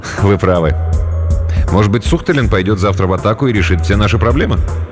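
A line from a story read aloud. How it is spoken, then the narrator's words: Laughing. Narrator (Russian): Полковник рассмеялся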